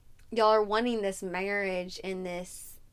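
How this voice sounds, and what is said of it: Country accent slipping out. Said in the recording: “That sounded really country. ... My country accent just came out.”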